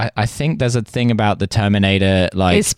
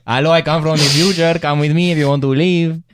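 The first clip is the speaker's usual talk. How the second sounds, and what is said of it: Put-on Spanish accent. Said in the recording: “Your Spanish accent?”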